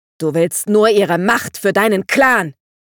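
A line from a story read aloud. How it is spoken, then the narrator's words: Angry scream. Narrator (German): schrie Dandelion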